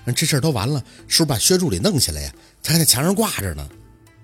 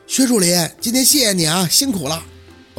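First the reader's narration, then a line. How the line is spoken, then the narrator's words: Calling out from outside. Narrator (Chinese): 杨助理在外边喊了一嗓子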